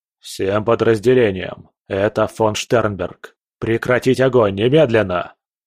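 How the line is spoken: Barked into radio. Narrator (Russian): рявкнул в передатчик

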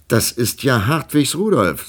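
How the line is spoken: Plain. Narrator (German): sagte Frau Imme

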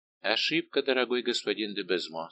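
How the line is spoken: Calm reply. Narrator (Russian): спокойно отвечал Арамис

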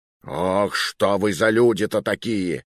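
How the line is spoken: Growling. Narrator (Russian): рычал командир по дороге

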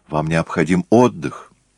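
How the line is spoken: Impulsive exclamation. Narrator (Russian): не удержавшись воскликнул

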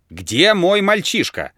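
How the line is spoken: Shouting again. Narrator (Russian): закричал он опять

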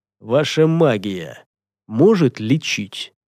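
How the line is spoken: Quiet question. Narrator (Russian): тихо спросил Гортер

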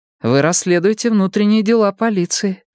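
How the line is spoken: Sighing. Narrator (Russian): вздохнула Мия

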